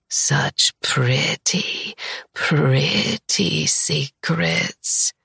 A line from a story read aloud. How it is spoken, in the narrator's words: she purrs, her words pinching my nerves